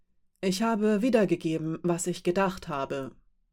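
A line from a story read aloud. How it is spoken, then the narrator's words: Calm. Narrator (German): sagte Rasch ruhig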